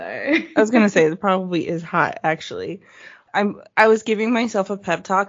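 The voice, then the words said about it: American accent. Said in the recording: “hear the American accent like in real time”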